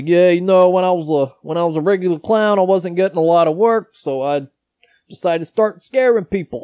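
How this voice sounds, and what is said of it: Imitated New York accent. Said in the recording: “he talks with, like, a New York accent.”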